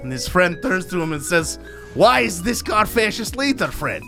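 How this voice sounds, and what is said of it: Put-on Russian accent. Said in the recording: “I am impressed by your accent ... Russian accent”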